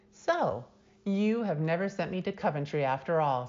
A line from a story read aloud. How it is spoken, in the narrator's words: said the lady, laughing